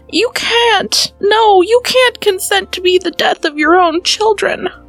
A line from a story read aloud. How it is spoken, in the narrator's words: cried the poor wife